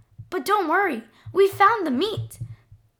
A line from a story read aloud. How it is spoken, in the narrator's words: the boy piped up